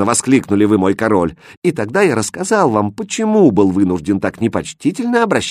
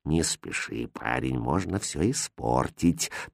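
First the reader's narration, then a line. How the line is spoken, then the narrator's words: Quiet reply. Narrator (Russian): так же тихо ответил хозяин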